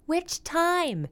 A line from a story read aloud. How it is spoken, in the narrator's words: Dyer hollered back from the other room